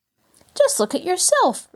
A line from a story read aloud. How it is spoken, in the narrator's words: retorted Mabel indignantly